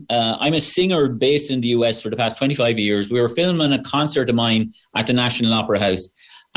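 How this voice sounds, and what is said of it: Irish Wexford accent. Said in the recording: “I'm from Wexford Town, as you can tell from the accent.”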